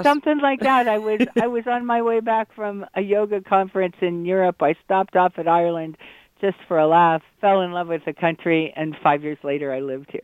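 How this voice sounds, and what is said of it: American accent. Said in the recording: “Am I detecting an American accent ... The accent never goes away. I'll always sound like a Yank.”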